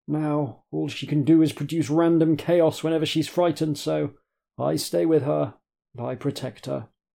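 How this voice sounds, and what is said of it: Old man character voice. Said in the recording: “my old man voice”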